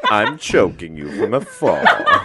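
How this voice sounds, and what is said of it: Deep Darth Vader impression. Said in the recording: “Your impression is so good because your voice is probably the only other voice on the planet that's in a similar register to James Earl Jones.”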